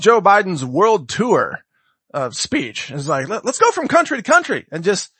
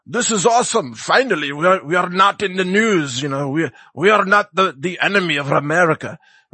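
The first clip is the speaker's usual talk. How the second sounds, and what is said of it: Attempted Iranian accent, sounding Irish. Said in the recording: “that's my attempt at an Iranian accent ... that was more Irish, I suppose ... Irish-Iranian”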